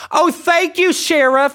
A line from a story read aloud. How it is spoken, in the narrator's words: yells so I can hear